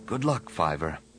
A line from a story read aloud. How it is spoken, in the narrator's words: Anakin whispered